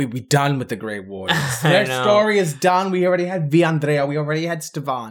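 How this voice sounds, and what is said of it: Usual voice. Nothing is said of it.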